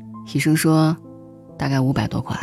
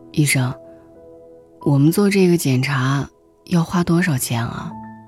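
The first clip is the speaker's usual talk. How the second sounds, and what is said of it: Quiet, hushed question. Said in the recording (Chinese): “小声的问了一句”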